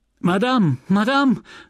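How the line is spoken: Calling out while rushing in. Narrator (German): rief die hereinstürzende Félicité

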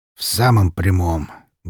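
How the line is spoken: Sorrowful sigh. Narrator (Russian): горестно вздохнул

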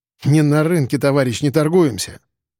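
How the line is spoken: Scoffing snort. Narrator (Russian): фыркнул

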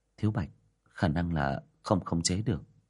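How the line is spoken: Sighing. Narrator (Vietnamese): Diệp Đình Vân thở dài

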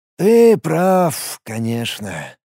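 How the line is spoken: Sighing. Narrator (Russian): вздохнул Даш

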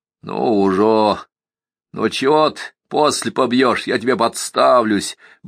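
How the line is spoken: Deep booming voice. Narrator (Russian): басил Донька

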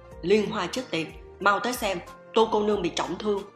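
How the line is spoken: Loud shout. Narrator (Vietnamese): Phương Đa Bệnh ... hét lớn

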